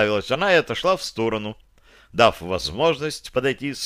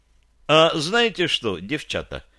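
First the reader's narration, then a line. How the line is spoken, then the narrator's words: Cheerful. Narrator (Russian): начал бодро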